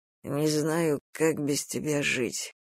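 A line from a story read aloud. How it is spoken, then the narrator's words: Sighing. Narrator (Russian): вздохнул Мурха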